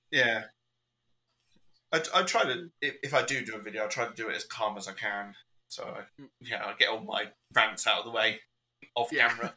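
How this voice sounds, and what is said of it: British accent. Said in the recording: “you got that British accent”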